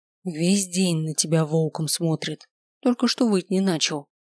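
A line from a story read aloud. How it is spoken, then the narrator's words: Whisper. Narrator (Russian): шепнула Миранда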